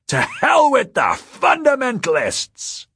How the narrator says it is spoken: cried

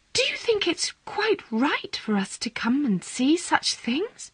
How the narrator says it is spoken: Miss Natty whisper

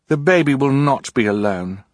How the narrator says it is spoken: Violet said fiercely

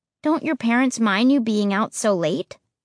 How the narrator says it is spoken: I asked

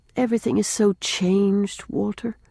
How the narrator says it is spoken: said Rilla wistfully

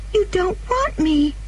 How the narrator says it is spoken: cried the child suddenly

